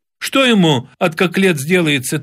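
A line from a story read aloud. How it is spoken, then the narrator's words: Anxious shout. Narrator (Russian): тревожно закричала Шурка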